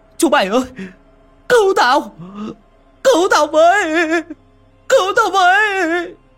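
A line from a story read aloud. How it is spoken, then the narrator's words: Old man's panicked yell. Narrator (Vietnamese): Lão gào toáng lên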